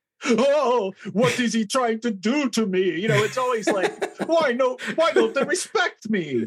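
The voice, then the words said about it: Imitates a film character's voice. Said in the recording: “Are you going to do your Spiros impression?”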